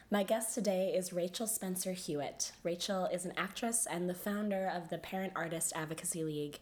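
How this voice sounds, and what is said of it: Sick, under-the-weather voice. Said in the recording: “I'm a bit under the weather, as you can hear in my voice”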